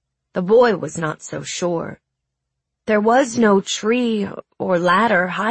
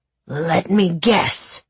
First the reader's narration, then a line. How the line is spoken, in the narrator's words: snarled the beast